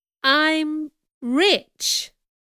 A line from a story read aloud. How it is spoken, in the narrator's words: repeated slowly